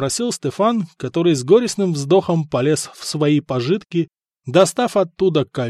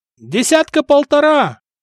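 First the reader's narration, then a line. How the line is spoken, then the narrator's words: Shouting sailor. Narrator (Russian): крикнул полуголый моряк на носу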